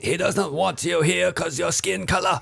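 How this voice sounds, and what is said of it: Imitates another person's voice. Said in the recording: “That's a good impression... It's not bad.”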